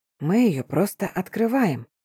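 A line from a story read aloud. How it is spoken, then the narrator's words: Whisper. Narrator (Russian): шепнул он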